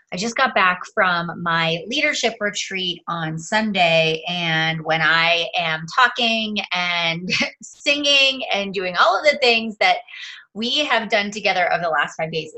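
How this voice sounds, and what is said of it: Raspy, strained voice. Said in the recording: “I am sure that you can hear in my voice that I sound a little extra raspy today ... it definitely takes a toll on my voice”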